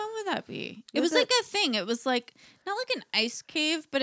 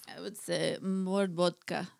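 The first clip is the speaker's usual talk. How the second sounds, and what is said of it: Put-on Russian accent. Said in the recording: “Tell me in your best Russian accent ... That's amazing ... That was incredible.”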